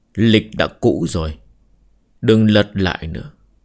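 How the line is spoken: Smiling, speaking. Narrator (Vietnamese): mỉm cười nói

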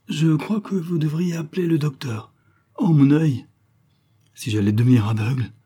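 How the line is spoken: Moaning complaint. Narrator (French): dit-il après plusieurs gémissements

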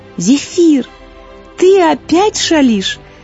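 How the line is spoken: Smiling through tears. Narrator (Russian): сквозь слезы улыбнулась Злата

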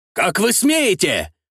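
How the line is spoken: Shouted. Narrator (Russian): выкрикнул Карл Фердинанд фон Буоль

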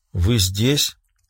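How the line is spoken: Muttered. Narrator (Russian): пробормотала секретарь

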